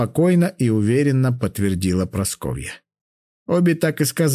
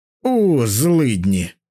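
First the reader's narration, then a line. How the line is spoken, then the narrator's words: Grumble. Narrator (Russian): проворчал Кузьма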